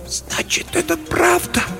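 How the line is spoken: Whisper. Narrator (Russian): прошептала она

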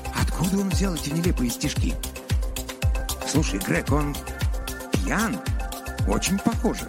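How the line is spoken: Quiet. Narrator (Russian): Донован тихо сказал

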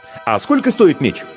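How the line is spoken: Question after snort. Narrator (Russian): гость хмыкнул и спросил

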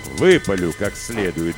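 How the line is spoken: Gruff mutter, father. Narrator (Russian): буркнул отец

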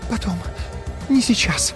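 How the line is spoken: Fervent whisper. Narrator (Russian): горячо шептала

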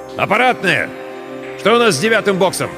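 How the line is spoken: Shouted. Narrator (Russian): закричал

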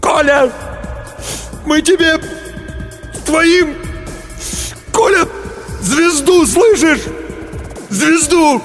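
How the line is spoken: Sobbing shout. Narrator (Russian): Демин всхлипнул ... крикнул

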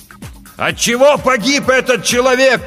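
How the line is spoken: Captain shouting. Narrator (Russian): прокричал капитан

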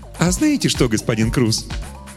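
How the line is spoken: Cheerful. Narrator (Russian): весело сказал Добель

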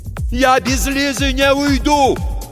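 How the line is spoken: Shout. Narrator (Russian): крикнул Тихон

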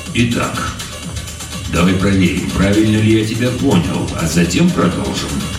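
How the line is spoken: Calm. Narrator (Russian): спокойно произнес полковник

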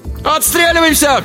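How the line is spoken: Shout. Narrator (Russian): крикнул Алибек

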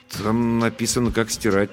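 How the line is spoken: Uncertain explanation. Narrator (Russian): неуверенно объяснил я

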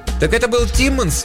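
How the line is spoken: Shouting over running water. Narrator (Russian): перекрикивая шум бегущей воды, крикнула из ванной Таша

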